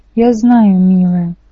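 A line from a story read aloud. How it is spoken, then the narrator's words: Sad. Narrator (Russian): печально сказал Гермес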